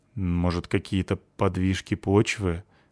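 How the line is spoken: Unsure. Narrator (Russian): сказал я неуверенно

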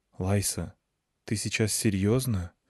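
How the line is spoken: Quiet question. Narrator (Russian): тихо спросила Клюся

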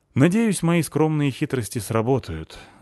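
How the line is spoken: Sighed. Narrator (Russian): вздохнул он

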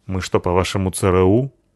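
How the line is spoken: Gloomy reply. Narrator (Russian): ответила Лайса мрачно

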